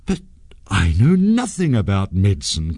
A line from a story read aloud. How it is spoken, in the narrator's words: cried Sanjay